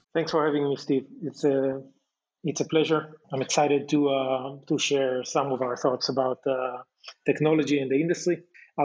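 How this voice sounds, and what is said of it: Israeli-accented English. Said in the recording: “your accent. You're not from New York. ... I'm an Israeli.”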